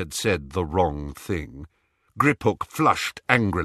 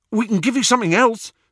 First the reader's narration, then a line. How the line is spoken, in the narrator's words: said Ron eagerly